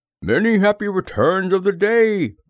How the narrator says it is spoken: called out Pooh

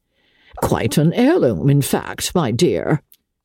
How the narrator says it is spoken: the old lady chuckled

